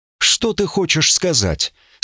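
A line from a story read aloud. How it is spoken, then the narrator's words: Frightened question. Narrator (Russian): спросил Катфаэль испуганно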